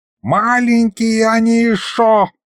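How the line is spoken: Howled. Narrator (Russian): взвыл Михалыч

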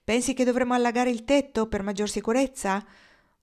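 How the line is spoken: Breathless question. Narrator (Italian): Marnie, ansimando, chiese

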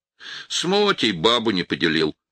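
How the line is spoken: Giggling. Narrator (Russian): хихикнул Кера

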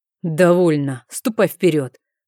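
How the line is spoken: Growl, up close. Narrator (Russian): прорычал герцог мне в лицо

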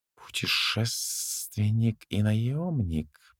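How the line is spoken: Drawling. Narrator (Russian): протянул Аухов

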